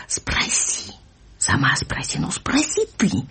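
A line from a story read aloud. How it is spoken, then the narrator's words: Heated whisper, young girl. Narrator (Russian): горячий шепот ее и мамы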